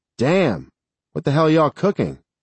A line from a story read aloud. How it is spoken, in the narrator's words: Danny called out